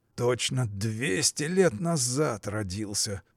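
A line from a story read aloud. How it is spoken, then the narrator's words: Mumbling. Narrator (Russian): бормотал Петр Иванович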